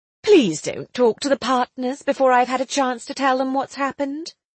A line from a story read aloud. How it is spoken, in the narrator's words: Willie begged